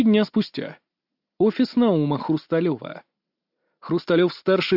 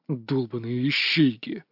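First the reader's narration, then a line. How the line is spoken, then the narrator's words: Growling. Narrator (Russian): рычал Валерий Наумович, известный в узких кругах как Наум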